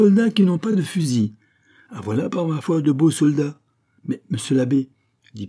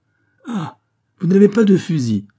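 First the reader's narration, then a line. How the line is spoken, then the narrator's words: Joyful priest's exclamation. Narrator (French): s'écria l'abbé trépignant de joie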